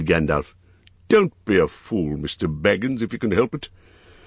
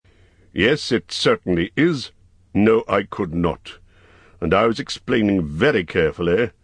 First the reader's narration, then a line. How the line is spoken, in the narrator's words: answered the wizard crossly